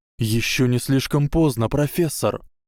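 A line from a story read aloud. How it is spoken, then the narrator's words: Exclamation. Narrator (Russian): воскликнул Гарри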